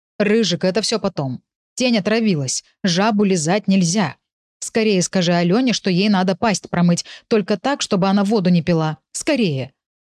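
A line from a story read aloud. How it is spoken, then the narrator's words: Growled command. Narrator (Russian): рыкнул Урс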